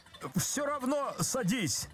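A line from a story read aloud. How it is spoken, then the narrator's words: Desperate shout. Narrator (Russian): закричал Козлевич отчаянно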